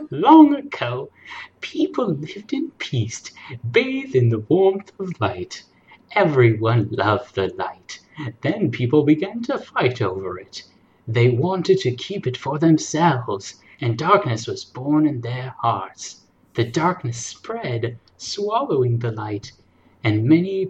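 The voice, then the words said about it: Old lady voice. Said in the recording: “old lady voice”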